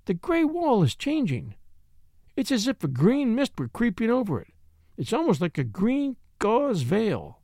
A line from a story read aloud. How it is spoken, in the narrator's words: she cried